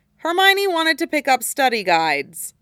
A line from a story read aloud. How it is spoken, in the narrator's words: added dryly